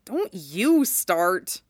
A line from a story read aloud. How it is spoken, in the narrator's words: Cloud grumbled